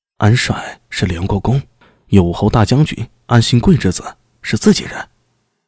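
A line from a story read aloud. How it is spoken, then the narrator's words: Whispering low. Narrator (Chinese): 在宋大兴耳边低声道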